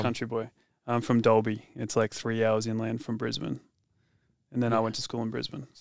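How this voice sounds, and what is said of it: Australian accent. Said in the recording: “you sound very Australian, I would say, compared to us.”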